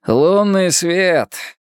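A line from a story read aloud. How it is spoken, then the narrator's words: Sigh. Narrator (Russian): вздохнул Халворсон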